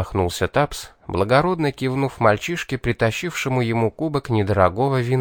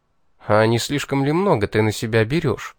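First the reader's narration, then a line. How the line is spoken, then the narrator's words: Cold, tense question. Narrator (Russian): Поиграв желваками, холодно поинтересовался я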